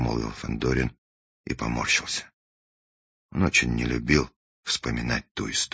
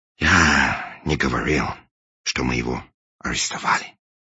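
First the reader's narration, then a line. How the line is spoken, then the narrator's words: Sighing. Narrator (Russian): вздохнул англичанин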